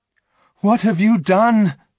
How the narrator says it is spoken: I cried

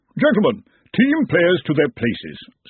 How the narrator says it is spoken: said the Arch-Chancellor of Brazenek haughtily

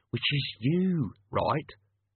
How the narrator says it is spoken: Albert hissed

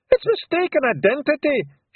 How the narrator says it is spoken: shouted Rob Anybody

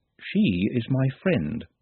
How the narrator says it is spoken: said Nut calmly

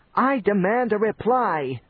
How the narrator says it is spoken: screamed Schleim

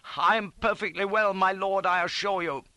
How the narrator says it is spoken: staggered up, clutching at my stirrup and bawling

